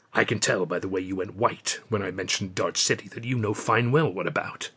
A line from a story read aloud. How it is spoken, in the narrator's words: he said in a low voice